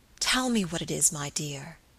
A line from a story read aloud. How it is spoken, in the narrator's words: he whispered tenderly